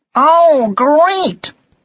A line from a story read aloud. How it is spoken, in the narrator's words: cried Martin